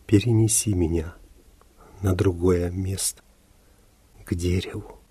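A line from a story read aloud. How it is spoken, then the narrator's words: Faint whisper. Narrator (Russian): ее губы едва зашевелились и прошептали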